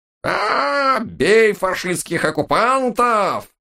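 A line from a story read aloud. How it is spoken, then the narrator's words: Frantic thin wail, old woman. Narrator (Russian): В голос заполошно тоненько взвыла бабка Маня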